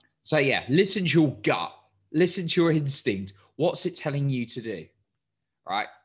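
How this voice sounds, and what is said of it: Usual voice. Nothing is said of it.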